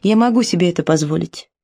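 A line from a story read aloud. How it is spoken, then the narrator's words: Calm reply. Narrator (Russian): спокойно ответила она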